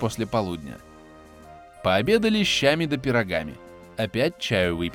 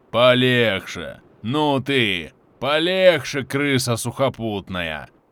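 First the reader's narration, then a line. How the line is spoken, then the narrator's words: Booming bass, bearded man. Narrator (Russian): Басом трубил бородач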